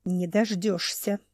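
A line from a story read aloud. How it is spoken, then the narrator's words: Hissing. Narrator (Russian): прошипела все еще довольно толстая Рюнга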